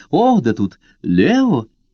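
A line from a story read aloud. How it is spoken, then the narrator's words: Surprised joyful exclamation. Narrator (Russian): Карла с тем же удивлением, радостно улыбаясь, воскликнула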